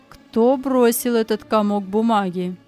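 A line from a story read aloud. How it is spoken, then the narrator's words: Cold. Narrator (Russian): учитель холодно спросил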